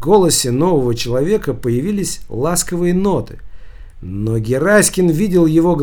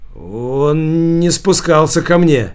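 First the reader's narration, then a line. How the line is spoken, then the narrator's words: Forced out reluctantly. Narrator (Russian): выдавил из себя Гераськин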